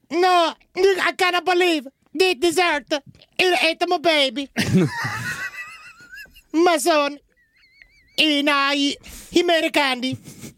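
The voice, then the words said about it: Put-on Italian accent. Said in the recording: “I can do an Italian accent ... the Italian accent”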